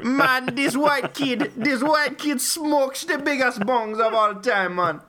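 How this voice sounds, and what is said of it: Put-on Jamaican accent. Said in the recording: “do a Jamaican accent.”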